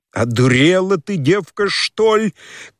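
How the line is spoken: Sudden angry shout. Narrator (Russian): крикнул он с внезапную злобою

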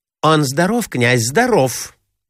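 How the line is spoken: Hurried. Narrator (Russian): торопливо ответила Марья Александровна

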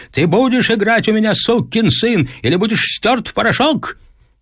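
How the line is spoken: Furious shouting. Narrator (Russian): Отец кричал, сверкая глазами

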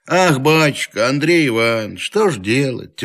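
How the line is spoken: Heavy sigh, then speaking. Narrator (Russian): тяжело вздохнув, начал Захар

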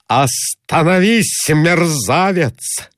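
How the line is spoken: Repeated shout. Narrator (Russian): закричал Николай Иванович еще раз

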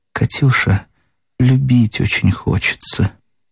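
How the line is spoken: Quiet. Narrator (Russian): Даша сказала тихо

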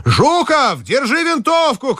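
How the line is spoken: Shouting. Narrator (Russian): крикнул Телегин

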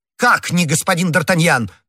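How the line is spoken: Shouting. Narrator (Russian): в свою очередь закричал комиссар

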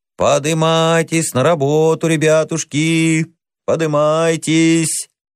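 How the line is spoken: Sing-song shouting. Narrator (Russian): сторож нараспев кричал

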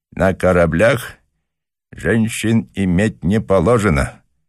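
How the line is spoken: Through gritted teeth. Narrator (Russian): процедил англичанин

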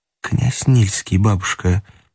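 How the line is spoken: Whisper. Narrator (Russian): прошептала ей Полина

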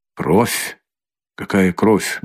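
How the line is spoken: Frightened mutter. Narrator (Russian): бормотал, бледнее

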